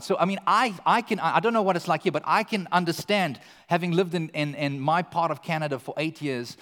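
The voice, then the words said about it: South African English accent. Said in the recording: “my accent ... You Australian? No. New Zealand? No. British? No. ... we're South African”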